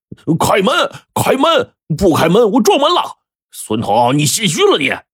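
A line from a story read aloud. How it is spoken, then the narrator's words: Angry shouting. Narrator (Chinese): 山民就更加愤怒了，边擂门边喊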